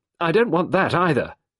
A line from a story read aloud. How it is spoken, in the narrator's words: Sarah said fiercely